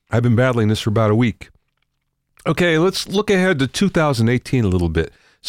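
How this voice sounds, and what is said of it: Congested, sick-sounding voice. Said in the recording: “As you can hear, I have a bad cold, and boy, it's not letting up.”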